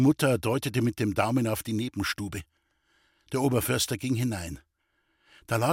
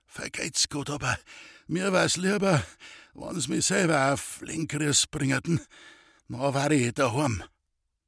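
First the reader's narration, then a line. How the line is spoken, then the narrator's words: Weak voice. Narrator (German): sagte er mit schwacher Stimme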